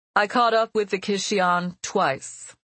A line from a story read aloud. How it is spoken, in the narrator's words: Juliana said in a firm, steady voice